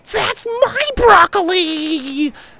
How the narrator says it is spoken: screamed a furious 5-year-old across the room

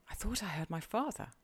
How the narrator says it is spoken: he gasped

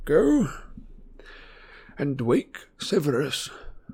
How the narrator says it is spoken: said Dumbledore faintly but clearly

